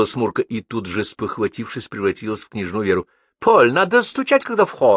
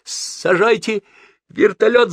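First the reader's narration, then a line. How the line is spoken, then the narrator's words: Yelled. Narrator (Russian): заорал он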